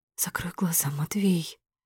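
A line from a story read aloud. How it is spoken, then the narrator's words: Quiet. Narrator (Russian): говорю тихо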